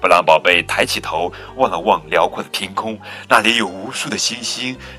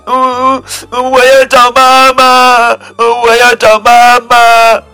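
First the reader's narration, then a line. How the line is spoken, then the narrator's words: Loud crying child. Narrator (Chinese): 布朗宝贝大声哭起来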